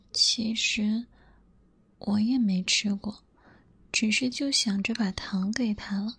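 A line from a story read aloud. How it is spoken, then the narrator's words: Soft murmur. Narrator (Chinese): 小白兔喃喃地说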